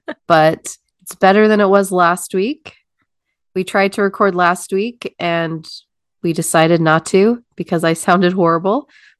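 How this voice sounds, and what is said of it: Congested nasal voice. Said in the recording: “I sound a little congested.”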